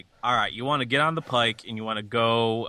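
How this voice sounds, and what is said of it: Put-on Boston accent. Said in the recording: “what would a Boston accent be like 200 years in the future?”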